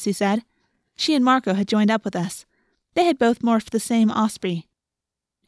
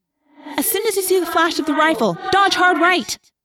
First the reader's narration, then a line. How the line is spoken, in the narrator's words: I yelled